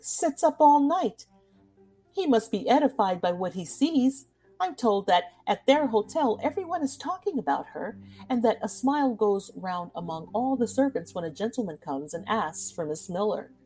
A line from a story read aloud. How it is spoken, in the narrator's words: said Winterbourne, laughing